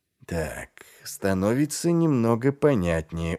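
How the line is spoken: Tired drawl. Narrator (Russian): устало протянул Ваймс

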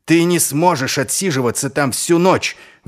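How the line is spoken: Shouting out. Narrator (Russian): выкрикнул Ваймс

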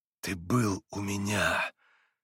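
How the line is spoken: Grating whisper. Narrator (Russian): скрежещущим шепотом проговорил он

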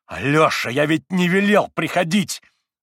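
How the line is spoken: Fierce shout. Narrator (Russian): свирепо крикнул он брату

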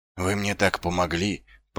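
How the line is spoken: Mumbling. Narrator (Russian): пробормотал Ваймс

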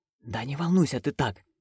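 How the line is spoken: Whisper. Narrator (Russian): прошептала Маград

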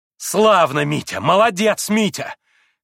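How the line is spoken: Shout with vicious note. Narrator (Russian): крикнула Грушенька, и страшно злобная нотка прозвенела в ее восклицании

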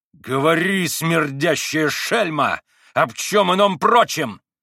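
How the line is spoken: Yell. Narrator (Russian): завопил

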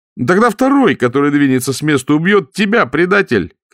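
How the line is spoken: Shouted. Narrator (Russian): крикнул принц

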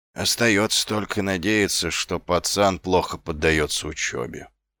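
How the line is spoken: Grumbling mutter. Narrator (Russian): пробурчал Ваймс

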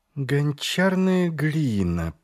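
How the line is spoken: Drawling. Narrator (Russian): протянула Ангва

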